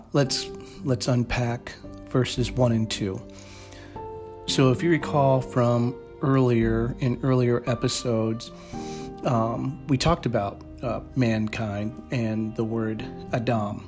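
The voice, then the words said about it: Slightly strange, throaty voice. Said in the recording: “apologize for my voice. Sorry, but I've been clearing my throat all day for some reason. So my voice sounds a little strange.”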